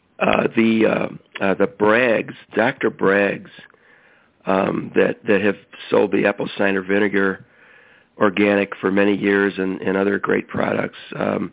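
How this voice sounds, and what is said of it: Congested voice from a cold. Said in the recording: “I've got a bad cold right now”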